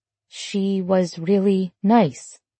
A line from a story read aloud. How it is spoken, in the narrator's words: Emma added softly